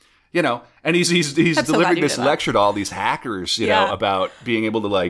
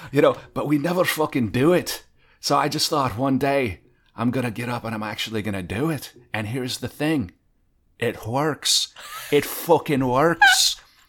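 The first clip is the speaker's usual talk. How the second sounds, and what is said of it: Imitated Scottish accent. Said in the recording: “he's got this great Scottish accent”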